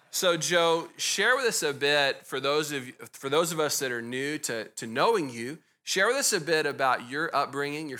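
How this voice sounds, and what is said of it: Texas accent. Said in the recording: “I have a Texas accent”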